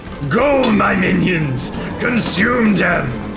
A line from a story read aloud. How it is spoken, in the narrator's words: Garker, who sounds somewhat like Godzilla, she's ranting and roaring